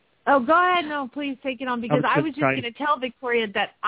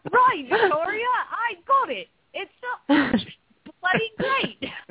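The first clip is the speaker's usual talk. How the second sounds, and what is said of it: Mary Poppins-style London Cockney accent. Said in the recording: “To Mary Poppins, kind of London Cockney accent”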